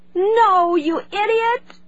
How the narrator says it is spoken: she shouted, knowing even as she spoke how unreasonable she was being

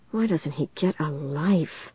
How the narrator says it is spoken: she said in a low voice

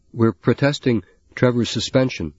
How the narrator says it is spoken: Lorne said in a strong, controlled voice

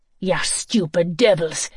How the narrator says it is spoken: spat

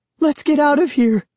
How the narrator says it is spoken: she cried

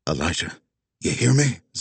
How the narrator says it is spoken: Zig whispered

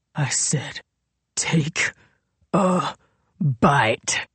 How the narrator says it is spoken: he growled

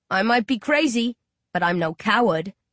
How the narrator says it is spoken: Rage chuckles

